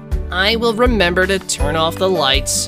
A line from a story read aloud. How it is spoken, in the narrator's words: Ben mumbled